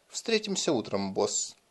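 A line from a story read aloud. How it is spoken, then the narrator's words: Quiet. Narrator (Russian): тихонько добавил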